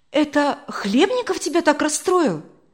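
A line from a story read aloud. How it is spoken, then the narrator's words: Exclamation. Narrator (Russian): воскликнула Людмила Михайловна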